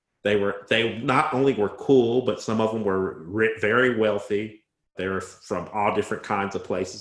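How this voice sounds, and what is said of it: Southern Indiana accent. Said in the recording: “my Southern Indiana accent”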